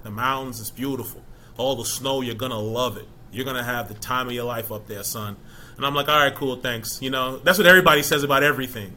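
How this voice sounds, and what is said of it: Attempted Boston accent. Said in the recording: “He's from Boston, so I'm trying to do a Boston accent.”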